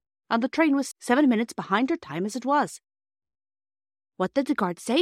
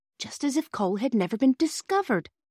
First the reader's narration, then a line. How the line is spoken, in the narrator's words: Phyllis whispered to her sister